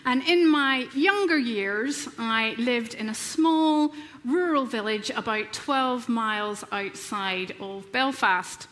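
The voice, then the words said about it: Northern Irish accent. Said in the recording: “I'm originally from Northern Ireland, just in case the accent didn't give it away”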